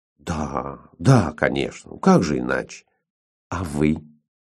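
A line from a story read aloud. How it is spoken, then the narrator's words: Soft. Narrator (Russian): Он ответил мягко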